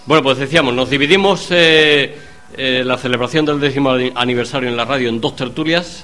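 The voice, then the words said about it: Stuffy, congested voice. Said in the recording (Spanish): “a pesar de la que hoy tengo de resfriado”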